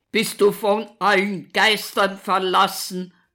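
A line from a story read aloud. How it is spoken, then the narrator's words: Bellowing. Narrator (German): brüllt Walter weiter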